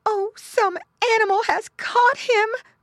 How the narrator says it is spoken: cried Mrs

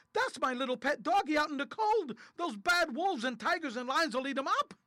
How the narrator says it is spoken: shouted

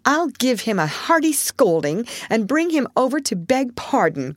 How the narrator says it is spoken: cried Joe, burning to execute immediate justice

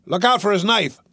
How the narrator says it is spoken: the bartender yelled once more

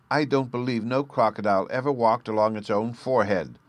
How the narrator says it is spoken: Sylvie cried, too much excited by the controversy

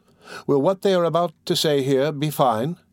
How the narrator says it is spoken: inquired Giquette timidly

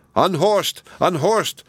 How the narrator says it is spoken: cried the people

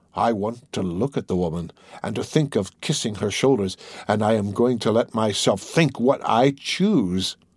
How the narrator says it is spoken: he declared bitterly, and tears came into his eyes

